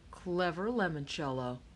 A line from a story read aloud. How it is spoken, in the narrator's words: he mumbled